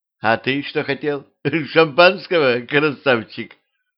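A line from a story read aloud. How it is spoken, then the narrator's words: Laughing. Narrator (Russian): Она рассмеялась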